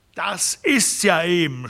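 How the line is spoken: Shouted, emphatic, words punctuated. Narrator (German): schrie Herron, jedes Wort mit einem Faustschlag aufs Knie bekräftigend

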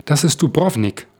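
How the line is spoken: Calling out. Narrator (German): rief Osman

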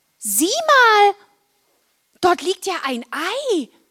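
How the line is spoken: Call out. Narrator (German): als Marla rief

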